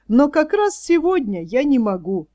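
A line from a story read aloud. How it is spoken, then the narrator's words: Mocking. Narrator (Russian): ответил насмешливо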